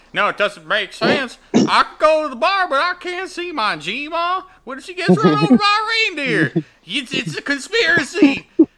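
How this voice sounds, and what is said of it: Mocking put-on Southern accent. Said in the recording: “Sorry, anybody that's Southern, that. That's just my go-to mocking people voice.”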